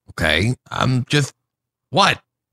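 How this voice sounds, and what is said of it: Upset tone of voice. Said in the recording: “You sound upset.”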